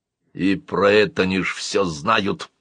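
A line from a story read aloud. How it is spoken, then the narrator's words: Grumbling. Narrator (Russian): проворчал Бабекус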